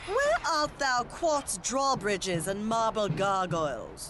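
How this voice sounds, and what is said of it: Archaic old-fashioned character voice. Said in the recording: “my impression of a 12th century architect having a conversation with a modern-day contractor”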